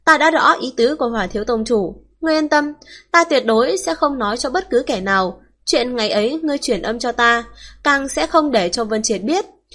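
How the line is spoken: Smiling calmly. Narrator (Vietnamese): Lạc Trường Sinh nhìn chằm chằm vào Hỏa Phá Vân, mỉm cười vẫn như cũ

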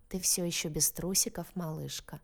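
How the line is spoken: Purring. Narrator (Russian): промурлыкал Анджи

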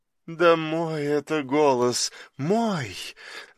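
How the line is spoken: Confiding, ingratiating young woman. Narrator (Russian): доверительно вкрадчиво говорила лежащая за ним молодая женщина

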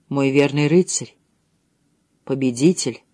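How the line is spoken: Whisper. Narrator (Russian): прошептала она

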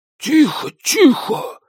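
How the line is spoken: Hissing. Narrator (Russian): зашипел на нее Николас

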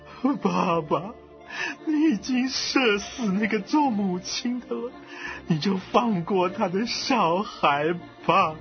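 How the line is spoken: Sobbing, tearful. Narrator (Chinese): 曹睿啊，忽然痛哭流涕啊，他说

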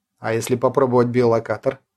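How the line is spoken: Plain. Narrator (Russian): спросил Иван

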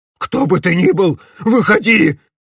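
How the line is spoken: Fat man shouting. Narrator (Russian): крикнул толстяк

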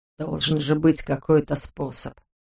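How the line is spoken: Muttering. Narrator (Russian): бормотал Йозеф

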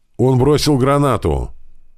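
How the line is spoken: Soldier shouting while running. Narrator (Russian): кричал бежавший навстречу сапер

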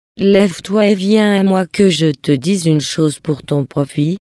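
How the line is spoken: Plain. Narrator (French): lui dit-il

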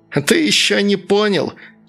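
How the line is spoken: Furious shrieking. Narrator (Russian): взвизгивало разъяренное тело

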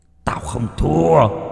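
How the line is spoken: Hissing. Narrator (Vietnamese): Cánh tay rít lên

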